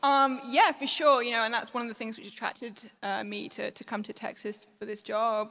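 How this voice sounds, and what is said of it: Non-local accent. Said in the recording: “your accent might not be from around here”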